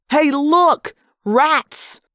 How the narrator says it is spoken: an impossibly loud voice shouted

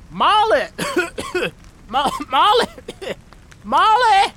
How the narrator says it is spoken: Choking on the sulfurous smog

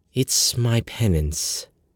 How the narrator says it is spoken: she said softly, as if she felt bad for me

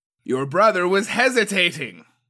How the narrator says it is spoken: she yelled over the clashing steel

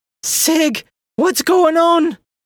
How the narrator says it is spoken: She shouted

